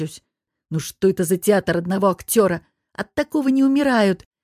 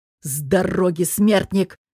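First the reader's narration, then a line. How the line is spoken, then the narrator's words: Through gritted teeth. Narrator (Russian): Цедит сквозь зубы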